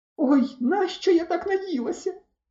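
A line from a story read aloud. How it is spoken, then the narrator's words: Despairing cry. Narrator (Ukrainian): розпачливо скрикнула Оксана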